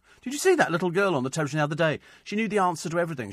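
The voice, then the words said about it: Blackpool English accent. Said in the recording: “I love your Blackpool accent”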